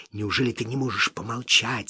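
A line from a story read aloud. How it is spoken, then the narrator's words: Angry whisper. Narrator (Russian): сердитым шепотом проговорил Смок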